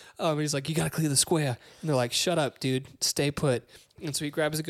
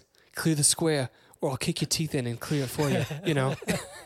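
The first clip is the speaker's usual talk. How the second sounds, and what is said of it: Imitates a movie character's accent. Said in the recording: “I'm gonna use the drive accent for him.”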